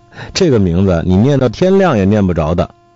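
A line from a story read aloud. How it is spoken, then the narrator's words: Laughing. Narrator (Chinese): 我笑说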